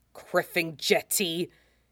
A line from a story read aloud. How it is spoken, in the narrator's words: he snaps